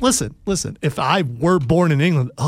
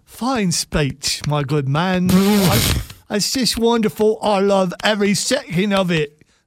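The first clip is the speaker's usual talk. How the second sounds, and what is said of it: Put-on Cockney British accent. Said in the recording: “Are you a chimney sweep? Is that your default British? ... yeah, Cockney”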